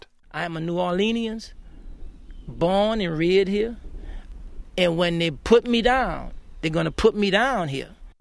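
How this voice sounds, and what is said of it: Louisiana New Orleans accent. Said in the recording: “we've heard many voices from Louisiana, or Louisiana, and you don't have to listen too closely to hear that accent ... It's a curious blend.”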